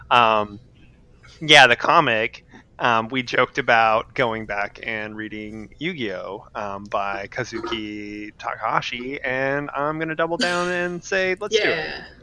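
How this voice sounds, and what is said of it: Hoarse, fading voice from cold. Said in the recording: “losing my voice. I've had a cold for like ... 2 weeks.”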